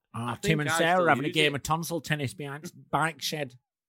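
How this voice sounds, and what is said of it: Put-on Manchester accent. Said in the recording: “Where are you from? ... Well, not where that accent's from. Not Manchester.”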